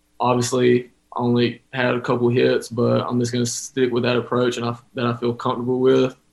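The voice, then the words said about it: Slight Texas accent. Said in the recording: “A little bit of that Texas accent coming out.”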